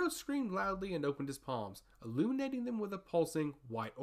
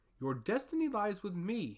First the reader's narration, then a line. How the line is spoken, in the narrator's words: he shouted